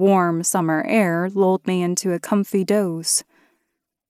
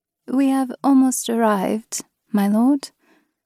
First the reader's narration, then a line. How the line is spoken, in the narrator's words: Rosmarin breathed into my ear